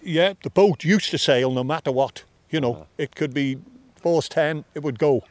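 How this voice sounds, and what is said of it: Strong Manx accent, Scouse-like. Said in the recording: “I hear Scouse ... Our accent, particularly Douglas, is there's a lot of Scouse influence ... a bit of Northern Ireland in there too ... quite good, strong Manx accent, but it is definitely Scouse”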